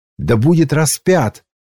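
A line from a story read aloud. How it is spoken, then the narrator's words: Crowd shouting louder. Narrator (Russian): еще сильнее кричали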